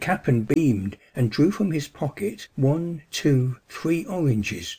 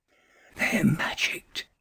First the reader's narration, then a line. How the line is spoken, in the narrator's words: whispered spellbound